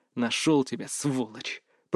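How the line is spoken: Whisper. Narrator (Russian): прошептал я

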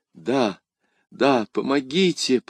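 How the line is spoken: Whispering. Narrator (Russian): прошептала госпожа Бонасье

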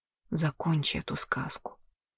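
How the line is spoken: Whisper. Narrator (Russian): он прошептал

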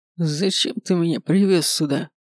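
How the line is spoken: Hoarse rasp. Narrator (Russian): Прохрипел, когда освободил ему рот

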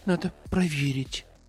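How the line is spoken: Whisper. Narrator (Russian): прошептала метелица

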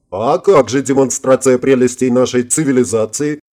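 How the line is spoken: Chuckling. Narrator (Russian): хохотнул Гельмут

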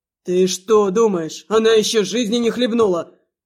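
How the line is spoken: Woman's scoffing grunt. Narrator (Russian): хмыкнула Рябая

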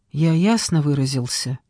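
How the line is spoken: Whisper. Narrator (Russian): прошептал

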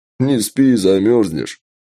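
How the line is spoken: Chuckling. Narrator (Russian): хохотнул Джек

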